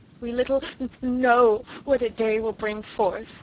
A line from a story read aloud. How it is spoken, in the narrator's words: sobbed Sarah